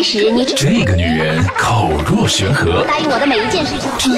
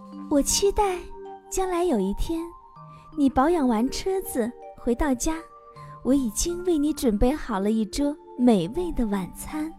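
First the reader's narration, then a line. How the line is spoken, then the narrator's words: Gentle, tender. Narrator (Chinese): 温柔的对男孩说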